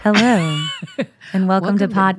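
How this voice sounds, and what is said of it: Radio announcer voice. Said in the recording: “Listen to that radio voice.”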